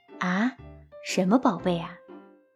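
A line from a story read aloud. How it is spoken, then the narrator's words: Sighing. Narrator (Chinese): 娜塔莎叹了口气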